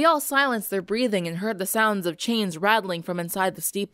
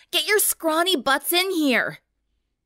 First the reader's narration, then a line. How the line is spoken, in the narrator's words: gasped